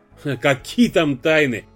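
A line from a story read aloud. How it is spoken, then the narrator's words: Laughing. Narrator (Russian): рассмеялся Снегов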